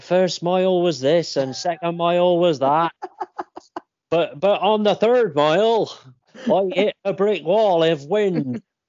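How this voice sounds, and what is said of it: Poor imitation of Bristolian accent. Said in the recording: “I'm terrible at his accent. I can't do Bristolian. ... It's not good, is it? It's not good.”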